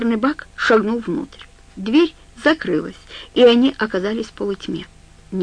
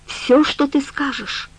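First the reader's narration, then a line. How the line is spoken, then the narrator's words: Whisper. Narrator (Russian): прошептал мусорный бак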